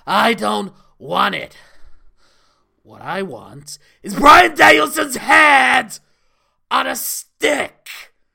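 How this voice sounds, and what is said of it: Imitates another person's voice. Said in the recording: “I'll try and do my John Moxley voice.”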